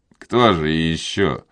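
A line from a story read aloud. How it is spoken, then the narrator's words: Mocking question. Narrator (Russian): спросил Пьер насмешливо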